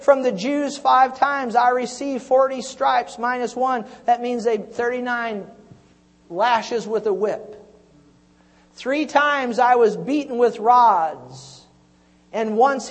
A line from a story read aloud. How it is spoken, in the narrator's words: he said